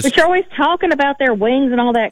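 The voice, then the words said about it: Slight Southern twang. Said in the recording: “I like this little Southern twang you got ... It's a little bit. I'm trying to get rid of it”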